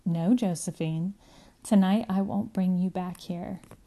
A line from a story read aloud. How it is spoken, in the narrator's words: say very quietly